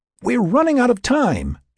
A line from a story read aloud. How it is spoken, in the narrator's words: she exclaimed